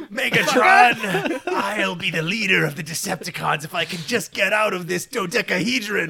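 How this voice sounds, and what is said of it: Imitates a cartoon character's voice. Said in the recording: “Starscream ... He sounds like this.”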